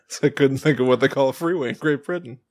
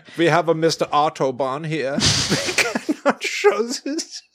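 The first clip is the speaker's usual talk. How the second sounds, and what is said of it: Put-on German accent. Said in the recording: “that accent for Great Britain ... German or something”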